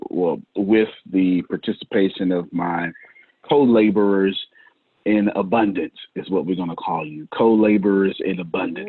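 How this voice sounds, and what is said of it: Preacher-style voice. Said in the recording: “You sounded like a preacher. You sounded like a preacher right there. ... I got to put my preacher voice on.”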